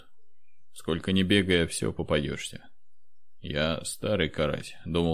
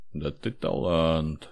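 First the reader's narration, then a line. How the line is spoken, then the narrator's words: Amazed drawl. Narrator (Russian): с изумлением протянул Федор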